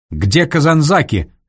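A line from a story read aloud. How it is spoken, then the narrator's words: General barking. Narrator (Russian): рявкнул генерал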